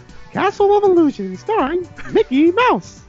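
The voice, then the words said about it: Imitates another person's voice. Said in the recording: “his best impression”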